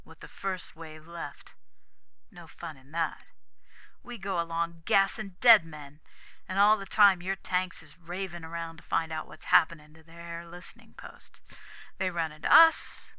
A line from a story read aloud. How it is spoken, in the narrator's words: he said bitterly